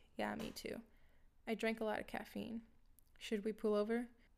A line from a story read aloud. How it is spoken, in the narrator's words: sighed reluctantly, and replied